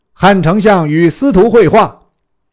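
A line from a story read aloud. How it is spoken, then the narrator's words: Proclaimed announcement. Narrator (Chinese): 令护军小校传曰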